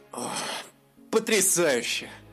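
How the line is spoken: Sigh. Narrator (Russian): вздохнул эльф

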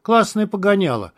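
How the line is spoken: Approving. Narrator (Russian): одобрил Феникс

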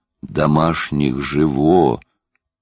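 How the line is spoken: Young man moaning, smiling. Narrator (Russian): простонал парень и улыбнулся

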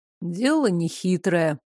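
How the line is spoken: Gloomy. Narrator (Russian): мрачно сказал Девислав

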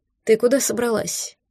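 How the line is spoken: Quiet question. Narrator (Russian): негромко спросил Берин

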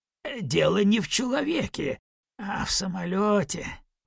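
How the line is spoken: Grumbling apothecary. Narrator (Russian): проворчал аптекарь

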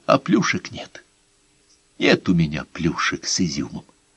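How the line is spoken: Barely audible. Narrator (Russian): он снова повторил еле слышно

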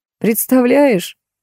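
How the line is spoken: Laughing. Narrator (Russian): смеясь, говорил он

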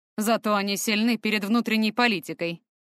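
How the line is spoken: Wry snort. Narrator (Russian): хмыкнул Фортем

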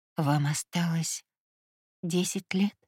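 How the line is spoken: Hoarse question. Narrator (Russian): хрипло уточнила я

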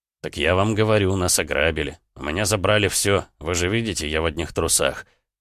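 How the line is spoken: Irritated reply. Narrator (Russian): раздраженно ответил Эдуард

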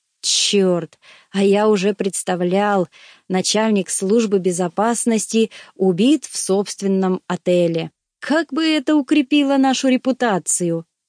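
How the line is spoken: Growling. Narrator (Russian): прорычал он

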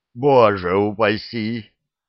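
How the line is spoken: Mock-frightened exclamation. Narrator (Russian): воскликнул Геша, в преувеличенном испуге

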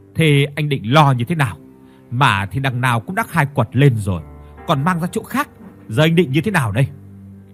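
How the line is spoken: Resentful, harsh question. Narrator (Vietnamese): Phương vẫn ra vẻ hậm hực, gằn giọng hỏi

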